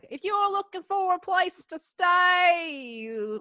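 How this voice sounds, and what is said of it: Put-on Australian accent. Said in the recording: “It's going down under. ... It's not bad. It's getting better. ... just stick to one accent, please. ... It's supposed to be Australian night.”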